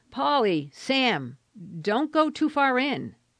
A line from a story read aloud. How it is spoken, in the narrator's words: She called out with automatic suddenness